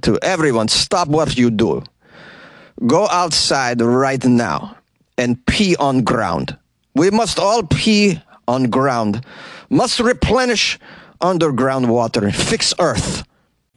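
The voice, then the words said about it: Put-on Russian accent. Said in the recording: “I can sort of do a Russian accent, though, so let me just instruct everybody in a Russian accent”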